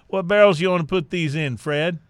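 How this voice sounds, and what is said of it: Put-on hillbilly accent. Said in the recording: “That's a great accent you just had there... That was very hillbilly, actually... I'm pretty good with the hillbilly accents”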